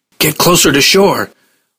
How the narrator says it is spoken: Ross shouted the warning

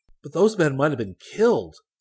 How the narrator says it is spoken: exclaimed Rick

